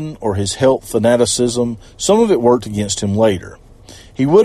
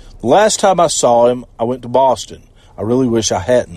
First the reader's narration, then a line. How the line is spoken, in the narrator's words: said Sammartino